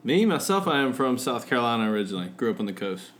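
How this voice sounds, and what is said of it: Southern US accent. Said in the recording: “with that accent from down south”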